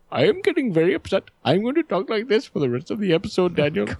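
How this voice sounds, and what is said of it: Put-on East Indian accent. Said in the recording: “East Indian accent ... your Peter Sellers impression”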